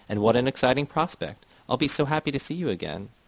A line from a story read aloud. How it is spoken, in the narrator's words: Myrna shouted